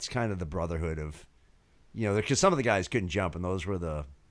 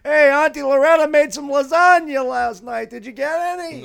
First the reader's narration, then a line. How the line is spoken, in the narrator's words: yelling it across 5,000 people back and forth